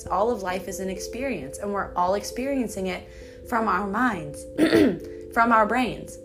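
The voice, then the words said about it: Strained, fading voice. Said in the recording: “as you can tell, I'm losing my voice because I'm very thirsty”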